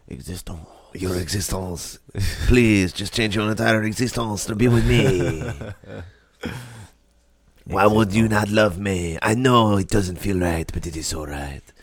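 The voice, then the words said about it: Exaggerated put-on French accent. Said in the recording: “The way you said the first part is so funny. It's so French. ... That's a horrible French accent.”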